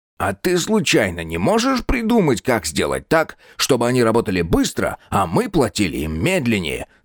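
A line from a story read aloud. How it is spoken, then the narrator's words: Plain. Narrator (Russian): спросил Птоклюсп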